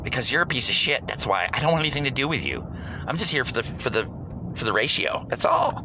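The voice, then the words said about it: Stereotyped gay voice. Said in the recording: “doing the gay voice”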